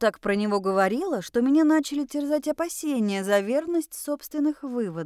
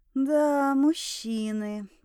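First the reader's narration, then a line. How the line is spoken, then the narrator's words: Cautious drawl. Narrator (Russian): протянула я, боясь ляпнуть что-то еще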